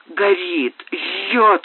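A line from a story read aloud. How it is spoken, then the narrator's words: Hoarse rasping. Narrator (Russian): хрипела она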